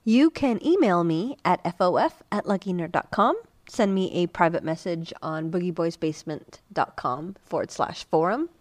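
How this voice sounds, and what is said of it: Rough voice from a cold. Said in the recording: “my voice sounds kind of fucked up, but I'm getting over a cold. I was pretty damn sick last weekend”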